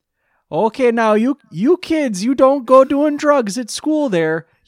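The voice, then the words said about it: Put-on deep Minnesotan accent. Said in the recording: “we decided she's Minnesotan ... A deep Minnesotan accent”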